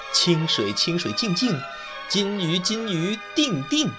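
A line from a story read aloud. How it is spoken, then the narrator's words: Cheerful, giggling. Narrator (Chinese): 他又笑嘻嘻地对鱼盆说道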